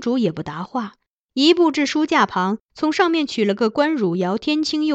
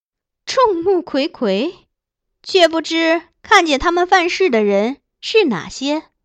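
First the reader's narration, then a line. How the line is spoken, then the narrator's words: Princess, cold sneering question. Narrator (Chinese): 公主闻言冷笑，问杨夫人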